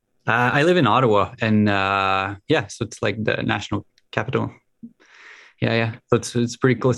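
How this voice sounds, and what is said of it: French Canadian accent. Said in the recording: “Yeah, the French. Yeah. Yeah, that's why I have an accent. ... French Canadian, is that right? ... Yeah. Yeah.”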